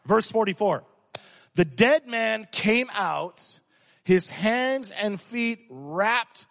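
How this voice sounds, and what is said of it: Usual voice. Nothing is said of it.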